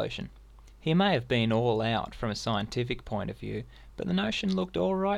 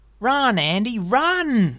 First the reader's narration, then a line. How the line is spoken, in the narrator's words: they shouted back at him